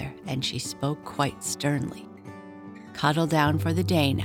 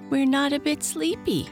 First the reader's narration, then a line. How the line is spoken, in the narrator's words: cried all the young raccoons together